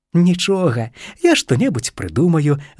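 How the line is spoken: Little squirrel laughing. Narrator (Belarusian): засмеялася вавёрачка

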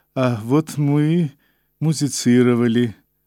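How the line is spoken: Smiling, absurdly indifferent tone. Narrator (Russian): он улыбнулся и до смешного равнодушным тоном начал

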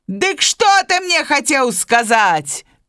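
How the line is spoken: Bear shouting. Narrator (Belarusian): Крычыць яму мішка

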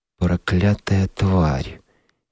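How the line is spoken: Slow, restrained anger. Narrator (Russian): медленно проговорил Билл, ничем не выдавая кипевшего в нем гнева

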